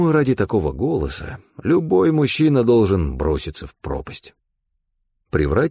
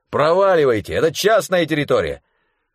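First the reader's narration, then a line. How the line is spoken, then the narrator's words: Irritated shout. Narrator (Russian): чей-то раздраженный голос крикнул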